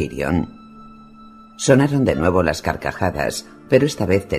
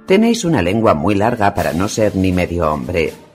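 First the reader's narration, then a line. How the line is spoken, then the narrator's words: Contemptuous retort. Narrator (Spanish): le espetó Thorne, clavándole los ojos negros llenos de desprecio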